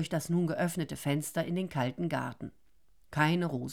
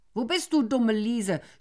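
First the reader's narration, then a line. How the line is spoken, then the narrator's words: Shouting. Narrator (German): schrie er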